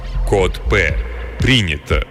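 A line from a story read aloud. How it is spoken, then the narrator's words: Low droning. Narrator (Russian): прогудел Самсон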